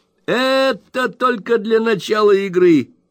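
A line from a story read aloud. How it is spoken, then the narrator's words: Laughing reply. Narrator (Russian): смеясь ответил мистер Уордль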